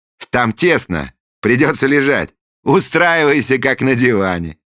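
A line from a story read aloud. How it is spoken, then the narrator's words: Cheerful prince. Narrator (Russian): весело проинструктировал принц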